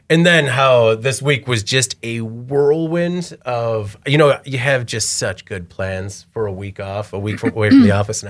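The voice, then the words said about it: Hoarse, rough, fading voice. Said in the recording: “losing my voice now because I've been doing nothing but whispering and shouting ... the sandpaper of a voice box”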